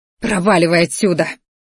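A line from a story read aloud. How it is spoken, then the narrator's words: Growl. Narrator (Russian): рыкнула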